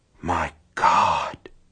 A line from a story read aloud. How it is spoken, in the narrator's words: he whispered